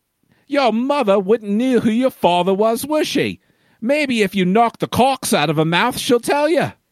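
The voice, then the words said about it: Put-on British accent. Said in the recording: “I'm going to read this in John voice because it's the only British accent ... I can actually do.”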